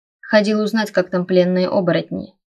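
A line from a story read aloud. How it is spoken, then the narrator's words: Plain. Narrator (Russian): ответил Райнер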